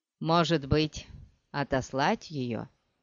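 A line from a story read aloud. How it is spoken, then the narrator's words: Plain. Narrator (Russian): спросил он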